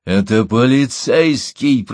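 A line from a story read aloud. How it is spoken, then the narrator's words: Growl. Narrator (Russian): прорычал он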